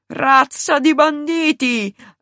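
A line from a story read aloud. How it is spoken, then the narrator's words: Final protesting cry. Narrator (Italian): lanciò in un ultimo grido di protesta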